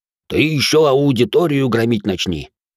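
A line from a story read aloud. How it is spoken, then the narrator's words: Reproachful droning. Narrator (Russian): осуждающе прогудел Салих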